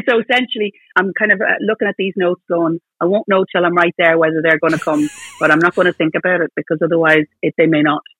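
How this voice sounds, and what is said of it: Dublin voice with Northern Irish lilt. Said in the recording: “you had a northern accent ... You're losing a bit of your dub ... nothing but northern accents around me. So there's little lilt”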